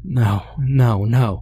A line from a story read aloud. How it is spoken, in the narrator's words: was moaning